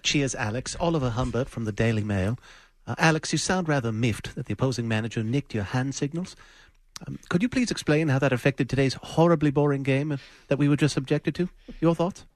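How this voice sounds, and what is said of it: Put-on British accent. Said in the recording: “there's something about ... British accent. ... Oh, it's brilliant.”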